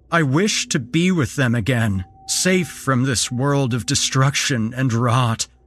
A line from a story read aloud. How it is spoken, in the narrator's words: he called out